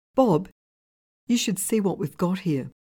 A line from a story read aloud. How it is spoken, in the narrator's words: In a shaking voice, called out